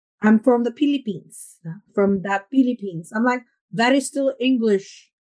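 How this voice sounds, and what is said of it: Filipino accent with a slight British tinge. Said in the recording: “I love your new accent now ... I really hear the like the difference ... it's like you're twisting your tongue around ... It's like something British. A bit British.”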